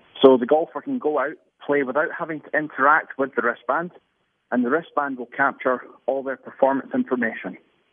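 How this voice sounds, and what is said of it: Non-American English accent. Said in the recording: “you've got an accent, so I'm buying it anyway. But because you just sound like you know what you're talking about.”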